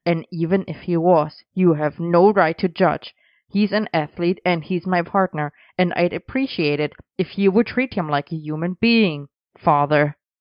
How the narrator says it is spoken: Arthur barked

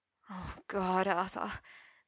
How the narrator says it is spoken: Merlin moaned

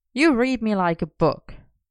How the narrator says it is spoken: Merlin grumbled

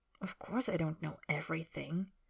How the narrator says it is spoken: Harry says quietly

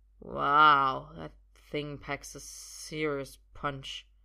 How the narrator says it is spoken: says, slurring slightly

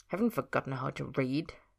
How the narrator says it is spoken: Ed muttered

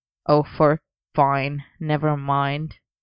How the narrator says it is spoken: Arthur grumbled

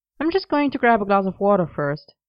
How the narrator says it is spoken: he said, with a small laugh

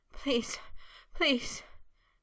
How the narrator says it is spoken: he panted in a chanting plea, shudders still jerking through him

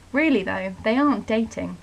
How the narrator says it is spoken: Morgana said

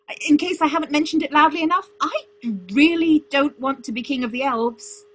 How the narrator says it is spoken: he yelled

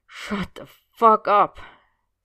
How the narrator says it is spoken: Sid groaned out

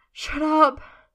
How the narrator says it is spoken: Merlin says breathlessly, shuddering

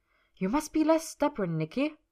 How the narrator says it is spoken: told him harshly

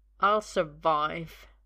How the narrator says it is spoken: Merlin says through gritted teeth

